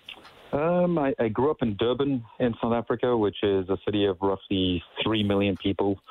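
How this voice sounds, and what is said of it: Slight unusual accent. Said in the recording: “I know I have a bit of an accent, a funky one”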